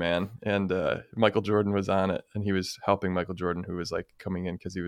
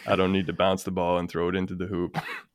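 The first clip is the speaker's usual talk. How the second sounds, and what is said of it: Flat deadpan delivery. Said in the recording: “deadpans repeating it”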